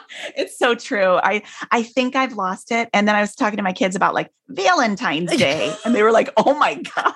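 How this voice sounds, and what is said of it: Midwestern American accent. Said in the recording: “You haven't lost your Midwest accent. ... I heard it right now.”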